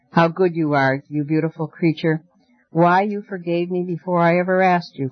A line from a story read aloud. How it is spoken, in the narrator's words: cried Photogen